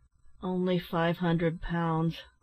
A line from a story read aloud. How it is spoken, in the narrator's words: replied Ned with a sigh